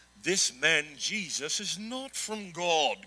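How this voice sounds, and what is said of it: Put-on British accent. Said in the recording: “we all know that Pharisees have a British accent.”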